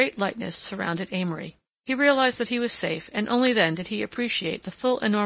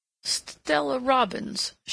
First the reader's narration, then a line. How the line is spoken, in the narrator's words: she faltered finally